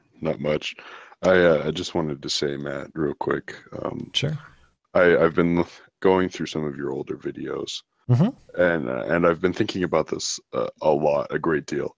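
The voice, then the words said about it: Deep voice. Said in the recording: “that's a deep voice.”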